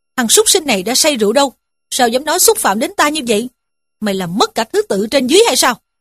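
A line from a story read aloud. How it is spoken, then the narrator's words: Angry scolding. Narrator (Vietnamese): Dương Luân quát mắng rằng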